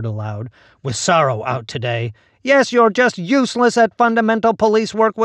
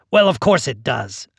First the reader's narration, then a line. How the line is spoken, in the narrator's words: I snapped